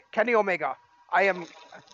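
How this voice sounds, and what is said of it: Poor put-on Scottish accent. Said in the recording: “That's a terrible Scottish accent”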